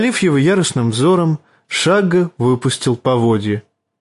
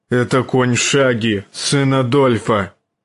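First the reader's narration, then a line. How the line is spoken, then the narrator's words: Gruff growl. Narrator (Russian): рыкнул он на мальчишку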